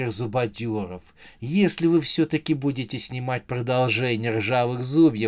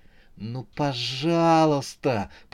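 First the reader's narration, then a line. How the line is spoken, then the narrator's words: Tearful moaning plea. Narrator (Russian): простонала девушка, наполнив глаза слезами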